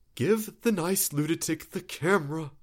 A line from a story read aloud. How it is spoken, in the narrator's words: Ben said, quieter, through clenched teeth